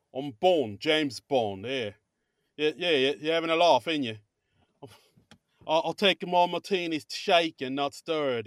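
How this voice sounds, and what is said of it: Put-on British accent. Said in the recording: “critique your British accent ... you should be the new James Bond”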